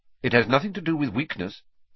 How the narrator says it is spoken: said Professor Lupin sharply, as though he had read Harry's mind

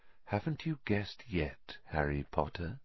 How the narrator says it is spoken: said Riddle softly

